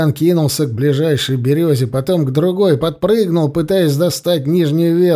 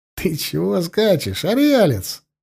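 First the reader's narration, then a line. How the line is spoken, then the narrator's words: Guffawing. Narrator (Russian): хохотал Дичка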